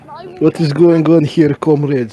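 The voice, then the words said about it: Put-on foreign accent. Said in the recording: “if you continue to speak in an accent ... I am going to mute you until you agree to use your actual voice ... Stop doing that fucking retarded voice.”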